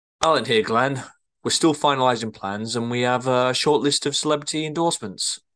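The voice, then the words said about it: Slipped into a northern English accent. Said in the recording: “I don't know what ... accent is then. just kind of gone a bit. ... went a bit northern there, didn't he? ... bit northern.”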